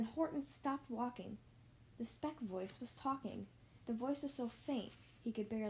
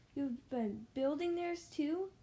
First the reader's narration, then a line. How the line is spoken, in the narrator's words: Horton gasped